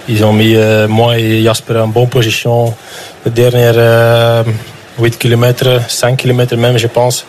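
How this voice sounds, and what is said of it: Flemish accent speaking French. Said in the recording (French): “l'accent qu'on adore, un accent flamand”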